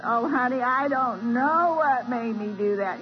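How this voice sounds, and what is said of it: Imitated southern Tennessee drawl. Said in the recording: “she's got this southern Tennessee drawl”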